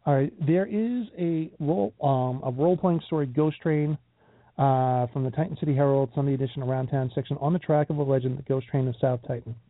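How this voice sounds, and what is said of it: Strained, failing hoarse voice. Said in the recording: “my voice is going very badly. It's getting worse as I'm talking ... rest my throat here, rest my voice a little bit”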